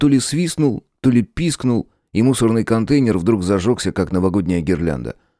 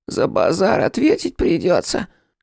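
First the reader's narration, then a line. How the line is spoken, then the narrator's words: Thin squeaky rat voice. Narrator (Russian): Голосом пониже, чем у первого, но все равно тонким, пропищал другой крысюк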